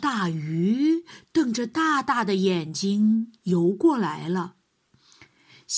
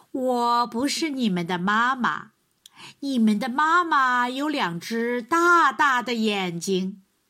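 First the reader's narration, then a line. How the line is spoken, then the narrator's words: Mother duck laughing. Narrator (Chinese): 鸭妈妈笑了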